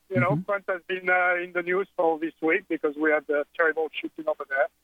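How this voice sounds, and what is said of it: French accent. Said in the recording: “I'm French. I mean, you can hear my silly accent... I can't hide that.”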